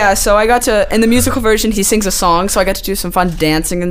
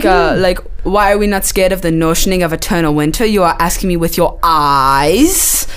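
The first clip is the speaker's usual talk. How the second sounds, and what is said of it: Put-on character accent. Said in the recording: “that accent is crazy... how long did it take you to get that accent?”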